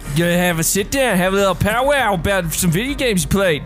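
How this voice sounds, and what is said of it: Put-on Australian accent. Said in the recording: “that's actually really good at Australian accent”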